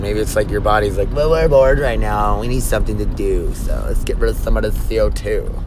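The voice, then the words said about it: Stereotyped gay-sounding voice. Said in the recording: “I made it like kind of like a gay voice”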